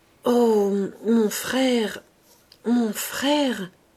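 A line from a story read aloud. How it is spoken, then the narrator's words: Girl stammering. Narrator (French): balbutia la jeune fille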